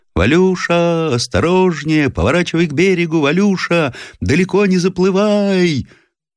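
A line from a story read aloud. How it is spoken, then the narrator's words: Shouting over wind and waves. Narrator (Russian): Профессор, стараясь победить озорной ветер и шум накатывающейся волны, закричал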